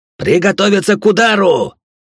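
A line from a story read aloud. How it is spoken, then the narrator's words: Shouted. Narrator (Russian): прокричать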